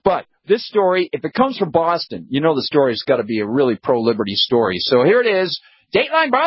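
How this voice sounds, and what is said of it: Usual voice. Nothing is said of it.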